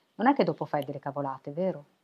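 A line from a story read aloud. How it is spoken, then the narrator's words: Plain. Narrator (Italian): chiese Albertina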